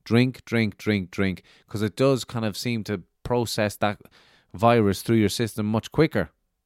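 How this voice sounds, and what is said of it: Nasal, congested, low-energy voice. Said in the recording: “I sound a bit nasally ... Not only am I nasally, but you can hear my energy is down”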